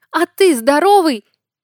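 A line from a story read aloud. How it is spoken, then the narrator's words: Shouted. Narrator (Russian): крикнула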